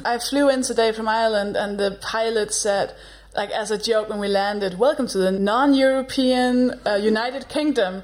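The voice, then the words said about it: Danish accent. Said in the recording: “a Danish accent”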